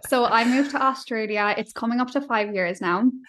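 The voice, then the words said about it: Irish accent. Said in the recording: “I'm Irish, obviously, if you can hear that already with my accent.”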